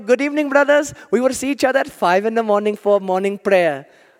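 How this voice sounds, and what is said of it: Put-on accent. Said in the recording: “I'll drop the accent.”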